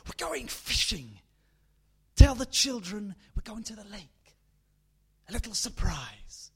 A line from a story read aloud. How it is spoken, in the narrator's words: her husband whispered, hard as a blade in her ear